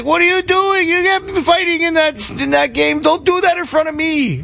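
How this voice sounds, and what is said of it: Old Italian grandpa accent. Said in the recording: “Like the old Italian grandpa. Accent.”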